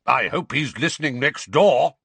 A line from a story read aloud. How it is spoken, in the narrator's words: bellowed Uncle Vernon